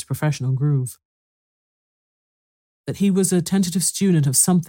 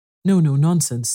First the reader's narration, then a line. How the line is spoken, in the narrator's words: said the first